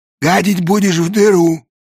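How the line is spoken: Hoarse. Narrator (Russian): сипло сказала голова с синим воротником

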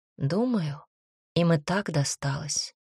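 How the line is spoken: Woman speaking softly. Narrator (Russian): тихо сказала женщина

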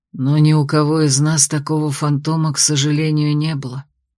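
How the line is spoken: Soft whisper. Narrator (Russian): тихо шепнул Берест

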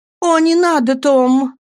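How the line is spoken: Exclaimed. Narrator (Russian): воскликнула Софи

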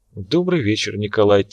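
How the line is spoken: Quiet. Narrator (Russian): тихо проговорила она

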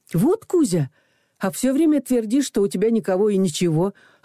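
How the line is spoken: Exclaiming. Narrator (Russian): воскликнула я

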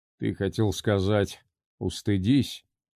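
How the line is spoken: Sigh. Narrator (Russian): Карлос вздохнул

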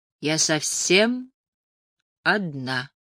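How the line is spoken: Slow, deliberate repetition. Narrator (Russian): повторила Элис, медленно выговаривая каждое слово

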